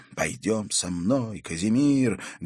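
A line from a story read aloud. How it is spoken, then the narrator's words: Fervent exclamation. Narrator (Russian): горячо воскликнул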